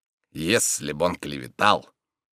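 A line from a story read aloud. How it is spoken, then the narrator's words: Gloomy orator. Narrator (Russian): Говоря это, великий оратор мрачно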